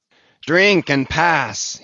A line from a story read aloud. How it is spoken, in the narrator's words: he cried